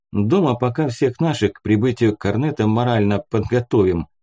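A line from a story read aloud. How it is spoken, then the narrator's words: Chuckle, quiet man. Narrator (Russian): хохотнул тихий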